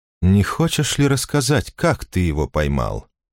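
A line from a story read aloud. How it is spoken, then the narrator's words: Purring. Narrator (Russian): промурлыкал Орфей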